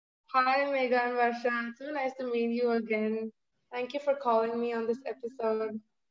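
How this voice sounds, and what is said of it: Speaks with a noticeable accent. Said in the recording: “I love your accent, by the way.”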